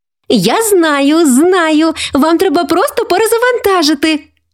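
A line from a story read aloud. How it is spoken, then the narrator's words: Exclaimed. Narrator (Ukrainian): вигукнула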